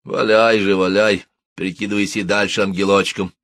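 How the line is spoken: Grumbling. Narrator (Russian): проворчал Сюрков

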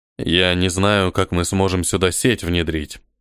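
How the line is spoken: Sighing. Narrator (Russian): вздохнул он

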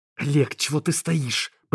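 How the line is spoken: Hissing. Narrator (Russian): Прошипела

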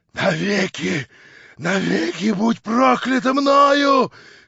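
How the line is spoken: Choking hoarse rasp. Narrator (Russian): хрипел он, задыхаясь

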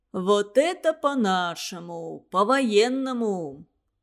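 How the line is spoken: Approving boom. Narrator (Russian): одобрительно прогудел Кузьмин

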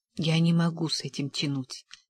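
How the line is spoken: Muttered. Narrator (Russian): пробормотал я

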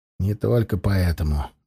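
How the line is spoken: Grumbled. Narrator (Russian): буркнул Даргаш

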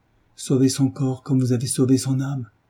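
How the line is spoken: Young woman crying out. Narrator (French): s'écria la jeune femme

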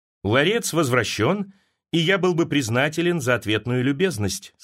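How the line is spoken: Plain. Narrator (Russian): сказал Дубровский

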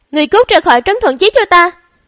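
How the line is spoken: Furious shout. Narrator (Vietnamese): Hắn càng nghĩ càng giận, thét lớn

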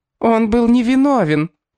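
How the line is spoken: High-pitched shout, woman. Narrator (Russian): тонким голосом выкрикнула женщина со светлыми волосами

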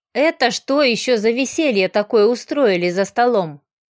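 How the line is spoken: Disapproving grumble. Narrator (Russian): проворчал Ройк, осуждающе

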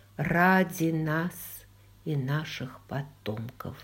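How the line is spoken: Very quiet. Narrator (Russian): сказал Роджер вслух, но очень тихо

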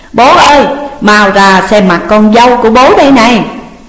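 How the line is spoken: Joyful loud shout. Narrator (Vietnamese): hôm nay gặp bố mẹ thì trong lòng cảm thấy vô cùng hồ hởi, cất cao giọng hét toáng lên

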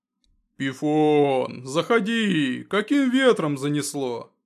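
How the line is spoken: Booming echo, man. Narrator (Russian): прогремел на всю пещеру мужчина

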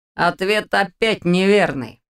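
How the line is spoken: Snorting. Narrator (Russian): хмыкнул Ваня

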